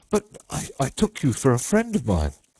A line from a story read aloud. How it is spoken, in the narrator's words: he stammered confusedly